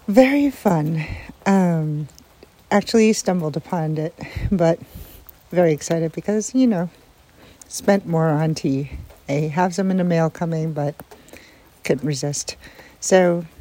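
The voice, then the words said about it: Voice affected, unwell sounding. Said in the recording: “sorry about my voice. It's the allergies.”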